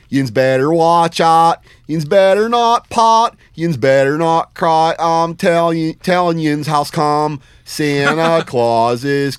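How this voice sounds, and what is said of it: Sung in put-on Pittsburgh accent. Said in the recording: “sing to you in a Pittsburgh accent ... It's written in Pittsburghese”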